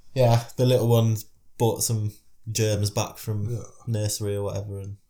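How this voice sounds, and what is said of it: Raspy voice from a cold. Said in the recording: “I am a bit raspy. ... You've got a bit of a cold.”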